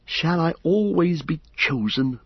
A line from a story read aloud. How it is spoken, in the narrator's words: she said bitterly